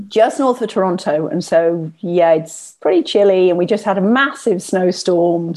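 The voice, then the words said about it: Southern English accent. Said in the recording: “We love your accent. Where is your accent placed from? ... It's from the south of England.”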